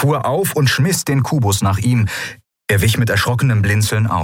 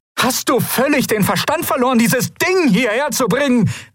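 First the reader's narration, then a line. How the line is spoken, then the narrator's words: Calling out. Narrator (German): rief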